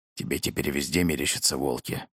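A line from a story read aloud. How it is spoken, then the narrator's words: Grumbling. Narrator (Russian): проворчал Герман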